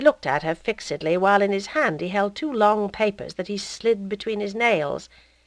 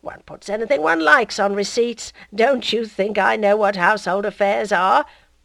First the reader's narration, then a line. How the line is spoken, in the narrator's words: he went on, laughing good-naturedly